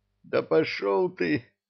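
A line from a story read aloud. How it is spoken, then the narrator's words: Groaning. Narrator (Russian): простонал Кевин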